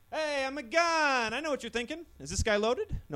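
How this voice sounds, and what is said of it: Stand-up comedian character voice. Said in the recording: “this is my impression of a gun doing stand-up comedy”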